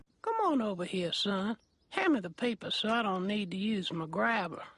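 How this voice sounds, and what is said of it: Old man character voice. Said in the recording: “the old man ... who wants the son? Can you do it?”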